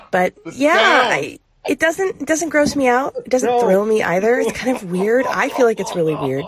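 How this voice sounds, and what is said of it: Congested, stuffy-nosed voice. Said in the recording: “I have a cold, if you can't tell, so I've got a bit of a stuffy nose right now.”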